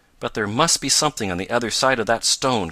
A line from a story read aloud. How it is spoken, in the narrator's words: cried Tom